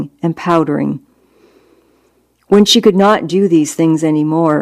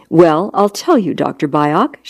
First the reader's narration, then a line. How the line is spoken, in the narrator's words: she answered in the same measured, polite tone